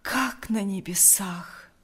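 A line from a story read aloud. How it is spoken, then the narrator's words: Breathless exhale. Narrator (Russian): выдохнул Лукьян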